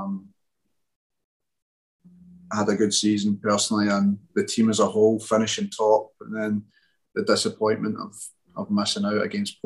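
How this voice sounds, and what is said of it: Speaks with a foreign accent. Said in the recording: “you certainly say it differently than we do. ... I love your accent.”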